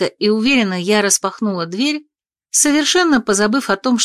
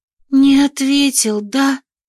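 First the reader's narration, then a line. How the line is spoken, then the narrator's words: Sigh of feigned sympathy. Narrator (Russian): С наигранным сочувствием вздохнула Анна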